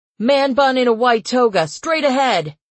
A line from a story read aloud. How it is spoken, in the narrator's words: Archie shouted